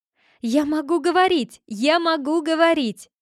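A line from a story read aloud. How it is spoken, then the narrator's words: Loud shouting. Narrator (Russian): громко закричала Розелина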